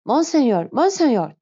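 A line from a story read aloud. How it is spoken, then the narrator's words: Shouted. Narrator (Turkish): diye bağırdı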